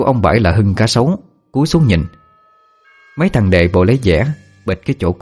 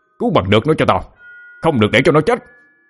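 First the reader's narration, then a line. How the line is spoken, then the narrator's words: Shout. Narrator (Vietnamese): Ông Bãi hét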